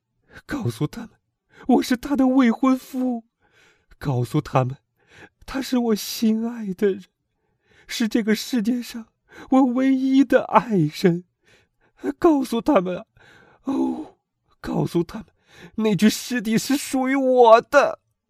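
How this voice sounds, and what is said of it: Hoarse, choked-up tearful voice. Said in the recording (Chinese): “那青年已经泣不成声了。 ... 莫里尔用嘶哑的声音说”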